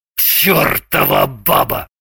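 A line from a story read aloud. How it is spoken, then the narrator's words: Angry, through teeth. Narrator (Russian): Зло процедил Шульгин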